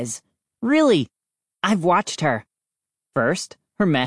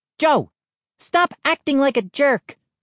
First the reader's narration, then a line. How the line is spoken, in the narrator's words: she snapped